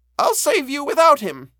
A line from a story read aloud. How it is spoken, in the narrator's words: she cried